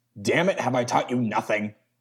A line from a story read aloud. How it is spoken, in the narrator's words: Vandenberg spat